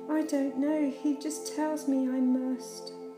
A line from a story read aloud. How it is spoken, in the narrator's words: cried the boy